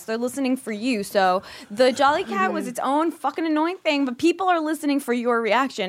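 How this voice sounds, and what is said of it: Imitates another person's voice. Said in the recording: “That was the best Steve Wilkos impression ... That was really, really good.”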